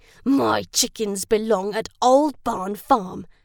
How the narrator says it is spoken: he snarled

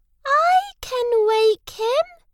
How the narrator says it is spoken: Mouse squeaked

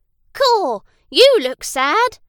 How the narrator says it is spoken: cried

